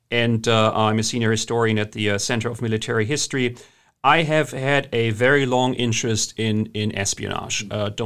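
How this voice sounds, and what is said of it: German accent. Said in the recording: “As you can hear from my accent, I'm German originally.”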